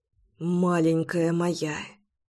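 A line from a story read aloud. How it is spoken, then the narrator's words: Muttered. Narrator (Russian): бормотал он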